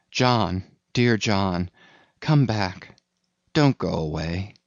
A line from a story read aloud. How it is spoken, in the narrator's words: called softly